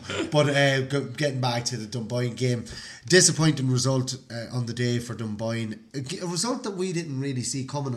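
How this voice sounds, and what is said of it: Voice with a slight cold. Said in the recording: “You can hear it in my voice. I've got a little bit of a cold. ... I've got a bit of a cold,”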